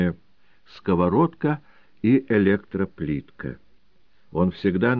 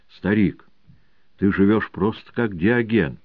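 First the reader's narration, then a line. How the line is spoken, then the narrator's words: Exclaiming. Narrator (Russian): один из его многочисленных приятелей, писателей, журналистов, артистов воскликнул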